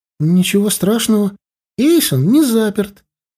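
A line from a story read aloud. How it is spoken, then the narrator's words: Joyful. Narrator (Russian): радостно сказала Эрли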